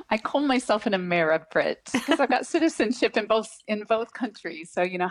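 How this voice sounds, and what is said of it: American accent with English influence. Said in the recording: “a little English accent now within your American accent”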